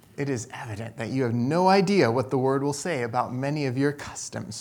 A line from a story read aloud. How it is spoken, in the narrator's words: she muttered more to herself than to her visitors